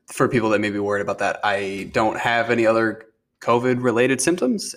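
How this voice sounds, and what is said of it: Voice strained by sore throat. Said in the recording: “I have a bit of a sore throat. My voice doesn't sound as good.”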